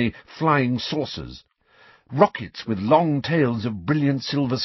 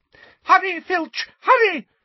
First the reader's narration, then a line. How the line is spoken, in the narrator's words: shrieked Umbridge